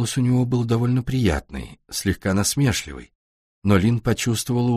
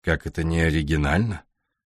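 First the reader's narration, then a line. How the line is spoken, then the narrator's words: Cold. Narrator (Russian): холодно ответил Дэвид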